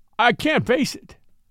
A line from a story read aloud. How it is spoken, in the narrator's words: whimpered Lowndes